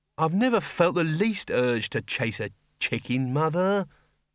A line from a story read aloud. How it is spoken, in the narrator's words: said Ludmilla wearily